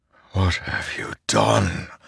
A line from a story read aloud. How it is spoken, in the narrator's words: Dalinar whispered, horrified